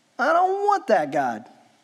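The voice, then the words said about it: Sarcastic mocking voice. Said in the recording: “my Alex being sarcastic impersonation.”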